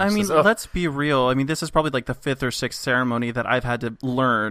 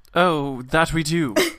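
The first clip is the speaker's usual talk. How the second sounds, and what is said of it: Put-on English accent. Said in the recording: “she's English, right? ... Sorry, I've caught your accent.”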